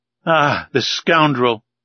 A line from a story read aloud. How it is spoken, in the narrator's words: cried Conseil